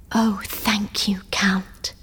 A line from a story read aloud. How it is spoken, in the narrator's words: whispered Valentine